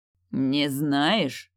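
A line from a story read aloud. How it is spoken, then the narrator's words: Beastly growl. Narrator (Russian): Так мог бы рычать настоящий зверь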